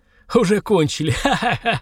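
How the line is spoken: Joyful laughter, coughing, choking. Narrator (Russian): радостно засмеялся адвокат, кашляя и давясь смехом

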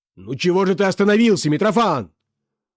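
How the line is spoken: Irritable shout. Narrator (Russian): раздражительно закричал Бобров

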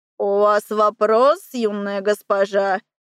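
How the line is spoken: Creaky voice. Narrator (Russian): проскрипела она

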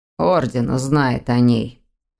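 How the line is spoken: Hoarse. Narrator (Russian): хрипло добавил Дамиан

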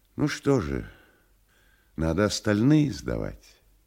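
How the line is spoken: Soft. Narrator (Russian): мягко добавил

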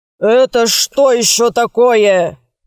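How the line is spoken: Roar. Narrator (Russian): Взревел Батыев

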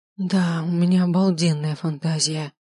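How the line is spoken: Moaning. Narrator (Russian): Простонала она

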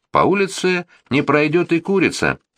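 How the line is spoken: Cheerful singing. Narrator (Russian): весело запел второй часовой

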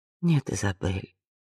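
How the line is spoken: Gentle interruption. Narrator (Russian): ласково перебила Вианна

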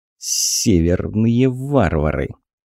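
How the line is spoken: Contemptuous mutter, servant. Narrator (Russian): презрительно процедил слуга

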